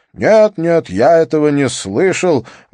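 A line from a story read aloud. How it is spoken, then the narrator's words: Exclaiming over laughter. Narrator (Russian): воскликнул Идер Ветлисон, перекрикивая их смех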